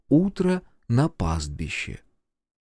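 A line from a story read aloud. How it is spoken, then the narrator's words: Embarrassed quiet words. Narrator (Russian): Кадзуё смутилась и тихонько сказала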